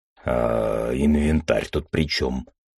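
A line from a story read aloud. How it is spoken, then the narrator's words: Deep bass. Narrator (Russian): пробасил Шибер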